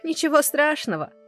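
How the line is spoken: Laughing. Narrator (Russian): смеялся Андрей

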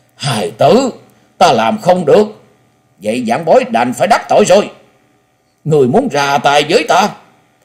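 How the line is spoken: Loud, deeply agitated. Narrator (Vietnamese): Quái nhân che mặt thân hình run rẩy, cho thấy nội tâm của hắn vô cùng kích động, lớn tiếng nói

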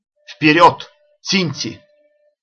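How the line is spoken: Warlike shout. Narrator (Russian): Ашока воинственно крикнул

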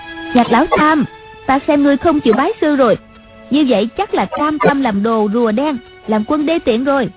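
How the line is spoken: Shouting. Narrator (Vietnamese): Ngọc Uyển Thanh la lên

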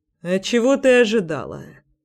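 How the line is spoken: Lazy question. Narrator (Russian): спросил лениво

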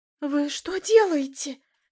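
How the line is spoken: Shrill shriek. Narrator (Russian): взвизгнула исчадие ада

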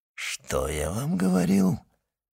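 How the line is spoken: Whisper. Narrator (Russian): шепнул комендант инспектору

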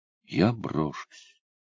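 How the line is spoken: Girl quietly repeating. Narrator (Russian): тихо повторила девушка

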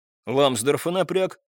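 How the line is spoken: Irritated raised voice. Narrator (Russian): раздраженно возвысил голос

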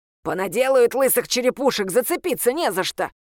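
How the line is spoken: Grumbling bird. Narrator (Russian): проворчала птица

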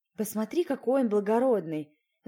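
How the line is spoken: Sighing. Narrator (Russian): вздохнула я

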